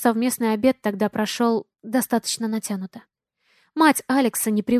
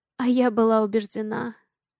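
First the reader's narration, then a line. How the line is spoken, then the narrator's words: Hoarse. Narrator (Russian): хрипло сказала она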